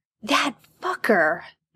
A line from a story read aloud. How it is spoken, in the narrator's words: Jared hisses